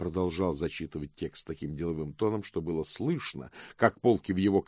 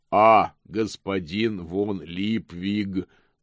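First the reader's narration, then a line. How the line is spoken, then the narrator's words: Booming voice. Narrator (Russian): прогремел господин Помпа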